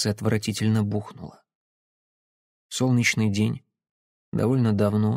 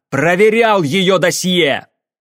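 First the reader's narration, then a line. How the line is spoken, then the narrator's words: Shouted. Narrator (Russian): выкрикнув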